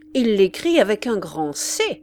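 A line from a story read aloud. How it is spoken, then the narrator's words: Exclaimed. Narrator (French): s'écria Madame d'Arpajon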